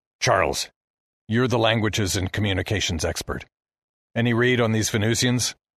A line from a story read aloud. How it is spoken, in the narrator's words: Heston asked